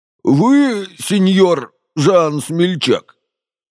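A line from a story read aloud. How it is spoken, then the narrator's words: Hoarse, rough question. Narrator (Russian): спросил тот же голос, сиплый и грубый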